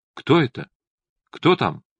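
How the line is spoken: Frightened question through door crack. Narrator (Russian): испуганно спросила в щелочку

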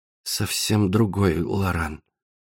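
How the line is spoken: Embarrassed mumble. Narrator (Russian): Лора смущенно улыбнулась и пробормотала

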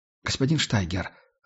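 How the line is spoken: Timid mumble. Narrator (Russian): робко пробормотал Майк

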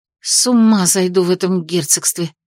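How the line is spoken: Muttered. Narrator (Russian): пробормотала я

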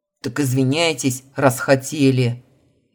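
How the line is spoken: Barked. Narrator (Russian): рявкнул Илья

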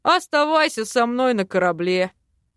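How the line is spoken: Chuckle. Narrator (Russian): хохотнул Док

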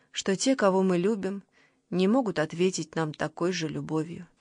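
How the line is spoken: Very soft. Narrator (Russian): очень мягко сказала она

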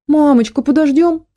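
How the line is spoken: Pleading. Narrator (Russian): взмолился Гошка

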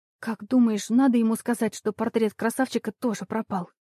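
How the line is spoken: Whispered question. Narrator (Russian): шепотом спросила она у Оли

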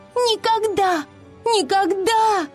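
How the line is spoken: Desperate scream. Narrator (Russian): она отчаянно кричала

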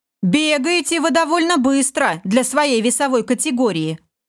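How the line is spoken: Laughing. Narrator (Russian): рассмеялся Олег

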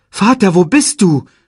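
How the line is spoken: Calling. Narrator (German): rief er

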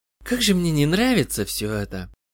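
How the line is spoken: Quiet speech. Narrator (Russian): тихо сказала Джоанна

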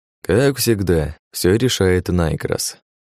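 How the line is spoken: Sad sigh. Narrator (Russian): печально вздохнув, произнес я

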